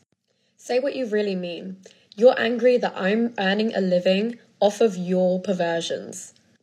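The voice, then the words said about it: Elegant possibly Australian accent. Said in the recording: “I have no idea where that accent is from, but it was great. ... I think it is Australian. ... It's kind of elegant.”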